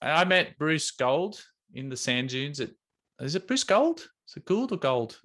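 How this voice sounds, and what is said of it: Usual voice. Nothing is said of it.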